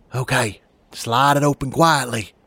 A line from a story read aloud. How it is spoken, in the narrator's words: whispered as silently as I could